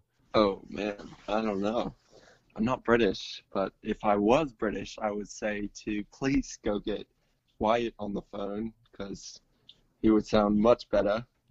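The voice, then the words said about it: Weak attempt at British accent. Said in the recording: “speaking in a British accent ... That was pathetic.”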